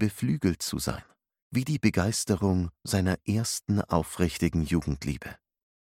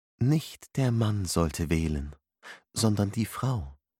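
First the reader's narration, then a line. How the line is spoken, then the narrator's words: Gently explained. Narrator (German): erklärte sanft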